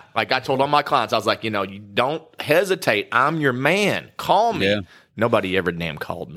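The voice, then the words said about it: Southern hillbilly accent. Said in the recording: “a good hillbilly accent ... If it wasn't for this accent”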